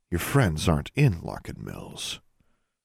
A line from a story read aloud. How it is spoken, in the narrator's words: a smaller voice murmured in the back of her mind